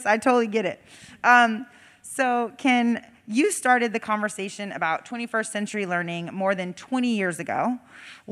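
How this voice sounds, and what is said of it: Nearly lost, hoarse voice. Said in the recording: “I've almost lost my voice.”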